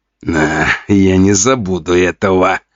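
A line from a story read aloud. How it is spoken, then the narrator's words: Hissing through gritted teeth. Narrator (Russian): скрипя зубами, прошипел Жуков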